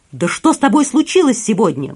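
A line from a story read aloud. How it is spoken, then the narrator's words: Exclaiming. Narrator (Russian): воскликнул Мишра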